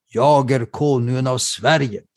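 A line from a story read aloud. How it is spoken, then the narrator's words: King shouting. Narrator (Swedish): kungen ropar själv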